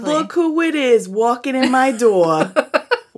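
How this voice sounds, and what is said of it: New York accent. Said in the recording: “a New York accent ... that was really good.”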